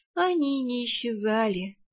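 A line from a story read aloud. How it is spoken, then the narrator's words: Sighing. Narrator (Russian): вздохнула я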